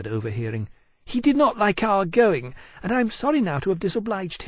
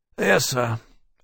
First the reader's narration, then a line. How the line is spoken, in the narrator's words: Granby said miserably